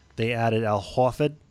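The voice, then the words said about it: Put-on Boston accent. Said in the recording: “That was my good Boston accent.”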